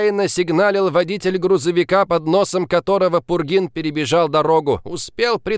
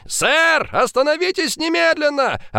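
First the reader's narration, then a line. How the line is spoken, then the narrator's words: Two voices yelling. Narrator (Russian): Орали копы в два голоса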